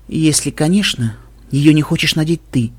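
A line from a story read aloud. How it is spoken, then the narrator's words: Soft. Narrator (Russian): мягко сказала Вельвет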